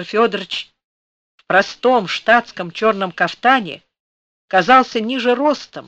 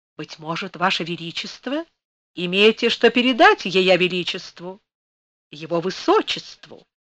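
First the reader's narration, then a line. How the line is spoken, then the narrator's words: Sweet deferential courtier's voice. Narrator (Russian): Он все тем же сладким, почтительным голосом опытного царедворца продолжал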